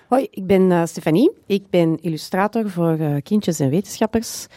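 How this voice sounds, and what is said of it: Antwerp Flemish accent. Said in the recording (Dutch): “ik ben de enige met een Antwerps accent aan tafel”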